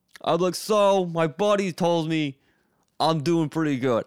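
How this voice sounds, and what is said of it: Put-on Brooklyn accent. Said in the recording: “Like a Brooklyn accent. I don't know where the Brooklyn accent came from.”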